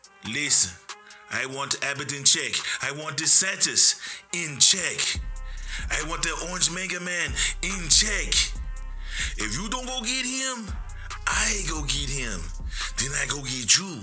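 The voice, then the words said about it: Rusty put-on Jamaican accent. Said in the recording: “That now was a rusty Jamaican accent.”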